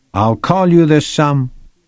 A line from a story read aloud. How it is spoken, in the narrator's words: Gina yelled